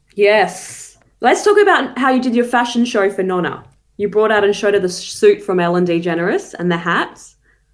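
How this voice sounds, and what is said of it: Australian accent. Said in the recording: “your accent is too Aussie, so you can't pronounce it the Italian way.”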